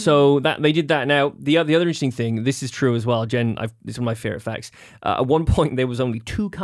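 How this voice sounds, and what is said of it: Usual voice. Nothing is said of it.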